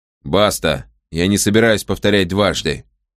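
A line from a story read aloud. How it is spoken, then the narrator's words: Menacingly level tone. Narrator (Russian): Каприкорн говорил угрожающе ровным тоном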